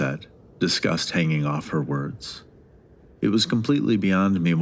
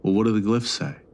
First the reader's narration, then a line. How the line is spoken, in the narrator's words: I asked